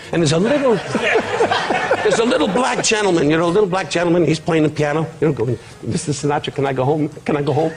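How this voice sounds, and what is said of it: Put-on accents voicing story characters. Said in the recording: “I do accents”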